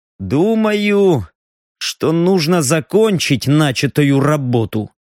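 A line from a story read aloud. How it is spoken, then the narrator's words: Gloomy reply. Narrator (Russian): мрачно отозвался пустотник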